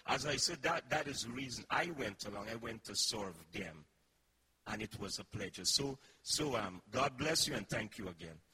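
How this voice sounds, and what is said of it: Noticeable foreign accent. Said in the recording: “has more of an accent than they do ... how come you have more of an accent than they have?”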